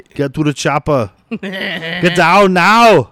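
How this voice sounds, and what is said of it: Shouted Austrian-accented movie impression. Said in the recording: “he is technically German, so he should have yelled, get to the chopper! I know Arnold's Austrian... it's a very similar accent.”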